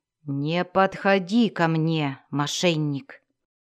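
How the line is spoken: Growl. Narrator (Russian): прорычал

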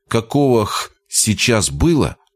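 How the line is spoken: Calm explanation. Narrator (Russian): спокойно пояснил

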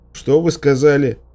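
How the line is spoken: Breathless shout. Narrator (Russian): крикнул я, задыхаясь

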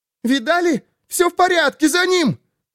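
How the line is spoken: Shrill female voice. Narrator (Russian): Визгливый женский голос

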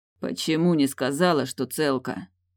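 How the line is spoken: Hoarse, heavy wheezing breath. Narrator (Russian): К хриплым ноткам добавилось тяжелое, свистящее дыхание

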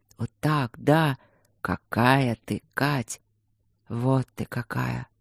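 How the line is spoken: Whisper. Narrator (Russian): шептал

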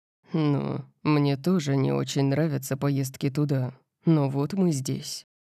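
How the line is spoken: Dry. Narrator (Russian): сухо сказал Лэнс

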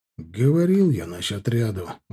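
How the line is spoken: Sighing. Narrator (Russian): вздохнул Таран

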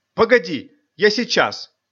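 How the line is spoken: Exclamation. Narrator (Russian): воскликнула Манюня

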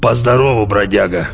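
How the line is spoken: Distant, heartfelt, hoarse. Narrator (Russian): Донесся до меня из глубины помещения проникновенно хриплый голос

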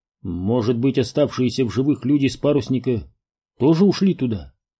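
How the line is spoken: Plain. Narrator (Russian): сказал Глин

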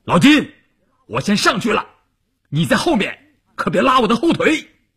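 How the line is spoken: Loud. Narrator (Chinese): 关山林大声地说

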